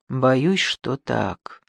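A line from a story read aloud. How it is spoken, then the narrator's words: Quiet. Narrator (Russian): он говорил тихо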